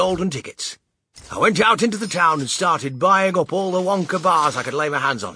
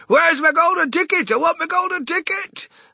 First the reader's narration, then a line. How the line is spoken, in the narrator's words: yelling in the most disturbing way